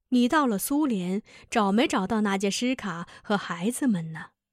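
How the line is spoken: Same old tone. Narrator (Chinese): 伊万说出的话与十几年前纳杰什卡离开他时所说的是一个腔调

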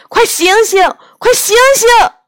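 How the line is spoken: Loud calling. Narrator (Chinese): 杨永乐仍然大声的叫着

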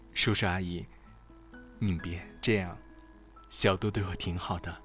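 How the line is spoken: Smiling. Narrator (Chinese): 小莫笑着说

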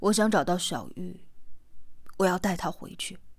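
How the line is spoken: Soft reply. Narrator (Chinese): 四娃轻声的回答

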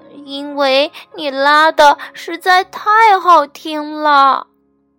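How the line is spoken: Crying. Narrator (Chinese): 弗洛格哭着说

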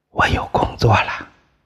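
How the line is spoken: Flushed, low voice. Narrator (Chinese): 宋刚脸色通红的低声告诉林红

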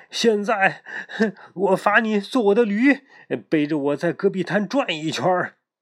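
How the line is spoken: Furious shouting. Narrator (Chinese): 县官气急了，又嚷嚷道

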